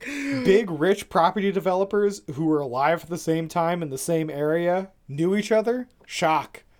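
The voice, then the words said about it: Sarcastic delivery. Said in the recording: “I was being sarcastic.”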